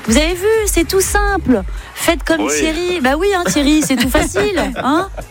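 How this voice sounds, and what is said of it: Put-on Belgian French accent. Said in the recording (French): “Je ne sais pas pourquoi j'ai pris l'accent belge.”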